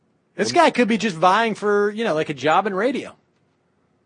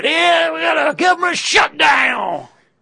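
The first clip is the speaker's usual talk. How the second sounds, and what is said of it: Put-on Southern accent. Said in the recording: “put on the Southern accent.”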